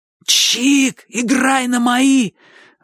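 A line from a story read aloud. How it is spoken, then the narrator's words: Desperate shout. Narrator (Russian): в отчаянии крикнул Бочу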